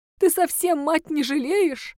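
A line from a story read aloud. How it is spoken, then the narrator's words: Woman sobbing. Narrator (Russian): женщина всхлипнула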